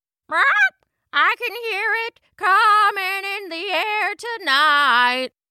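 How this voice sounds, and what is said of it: Macaw character voice singing. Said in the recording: “You can even hear the macaw somewhere in the clearing mimicking,”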